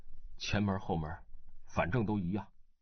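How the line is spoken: Flat, indifferent. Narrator (Chinese): 张可南淡淡地说

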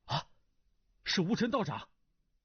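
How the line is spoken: Blurted exclamation. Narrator (Chinese): 胡斐禁不住脱口叫道

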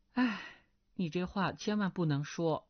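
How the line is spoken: Sighing. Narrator (Chinese): 钟灵叹了口气道

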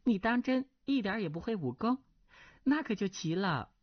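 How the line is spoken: Laughing. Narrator (Chinese): 那少女笑道

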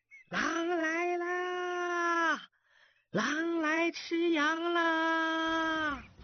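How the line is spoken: Boy shouting. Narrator (Chinese): 少年的喊声

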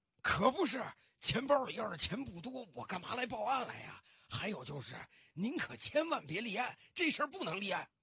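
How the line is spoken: Anxious, panting. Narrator (Chinese): 这老先生更着急了，他大口大口的喘着粗气，继续说道

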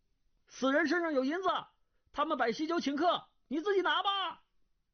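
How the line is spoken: Calling from a distance. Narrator (Chinese): 黑玫瑰已行出数丈，叫道

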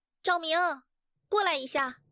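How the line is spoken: Loud shout. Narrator (Chinese): 花大声地冲赵明喊

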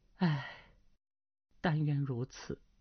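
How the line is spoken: Sighing woman. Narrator (Chinese): 那女子又叹了口气道

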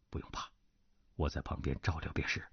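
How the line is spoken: Low voice. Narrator (Chinese): 段正淳低声道

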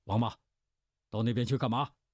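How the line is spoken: Deliberately loud shout. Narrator (Chinese): 乌孙府故意大声喝道

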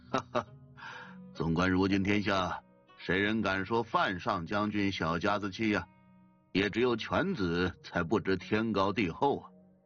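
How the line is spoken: Hearty laugh. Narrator (Chinese): 江印哈哈一笑道

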